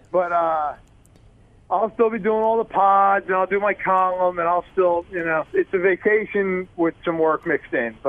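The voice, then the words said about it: New York accent. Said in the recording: “back to where I grew up. If you couldn't tell by the accent”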